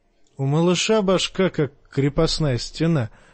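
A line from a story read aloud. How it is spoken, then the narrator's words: Laughing. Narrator (Russian): засмеялся Ларк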